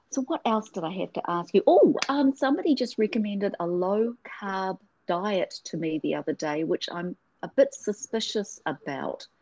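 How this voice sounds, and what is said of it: Noticeable accent. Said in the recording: “I know I've got an accent.”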